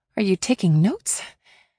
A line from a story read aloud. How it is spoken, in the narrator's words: He chuckled